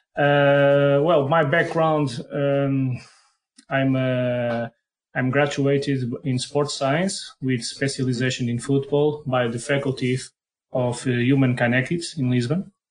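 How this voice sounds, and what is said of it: Strong Portuguese accent. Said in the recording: “my strong Portuguese accent”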